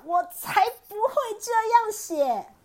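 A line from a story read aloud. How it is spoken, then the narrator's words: Loud shout. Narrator (Chinese): 狮子大叫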